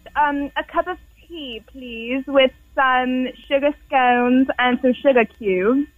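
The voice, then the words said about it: Put-on British accent, slightly garbled. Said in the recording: “Can you do a British accent? ... You sound as if Mary Poppins forgot to take out her night guard.”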